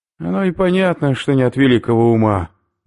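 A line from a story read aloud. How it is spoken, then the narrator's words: Sighing. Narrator (Russian): вздохнул Убер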